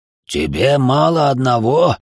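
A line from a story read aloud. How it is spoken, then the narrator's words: Growling. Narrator (Russian): зарычал Бельфегор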